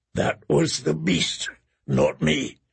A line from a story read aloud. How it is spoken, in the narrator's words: he said in a hoarse whisper